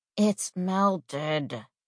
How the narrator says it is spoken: mumble into my pillow, salty because how dare he wake me up before the sun on a Monday

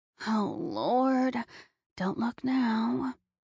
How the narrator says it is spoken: Sarah mutters in my ear

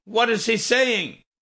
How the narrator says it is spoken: Brody hollered after Joseph

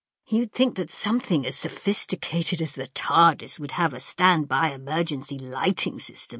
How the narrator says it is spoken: Ian grumbled

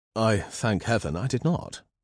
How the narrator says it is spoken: Simon said dryly

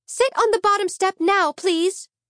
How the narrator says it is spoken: she shouted

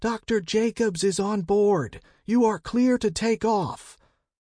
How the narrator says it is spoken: The soldier yelled into a radio

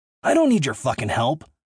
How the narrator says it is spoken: I snapped

